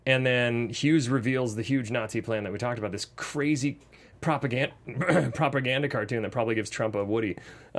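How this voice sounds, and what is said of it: Voice giving out, strained. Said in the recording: “I'm losing my voice”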